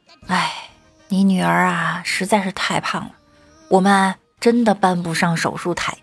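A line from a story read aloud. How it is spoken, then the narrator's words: Sighing. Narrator (Chinese): 医生……叹道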